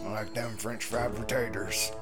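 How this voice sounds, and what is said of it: Sling Blade Karl Childers accent. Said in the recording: “talk like this the rest of the game. Try not to lose this sling blade accent.”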